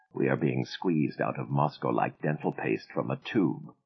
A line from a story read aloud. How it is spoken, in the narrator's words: Aida said quietly